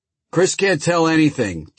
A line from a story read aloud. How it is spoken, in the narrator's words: Tony yelled from the front room